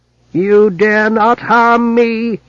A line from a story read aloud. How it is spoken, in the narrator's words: he whined